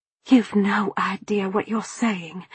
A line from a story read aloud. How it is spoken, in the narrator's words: I hissed